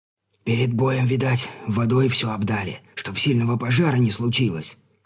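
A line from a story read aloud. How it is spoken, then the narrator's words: Whisper. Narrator (Russian): шепотом произносит оказавшийся рядом кормчий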